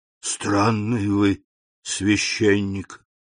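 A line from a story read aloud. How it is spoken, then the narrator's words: Whisper. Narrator (Russian): прошептал Кадрус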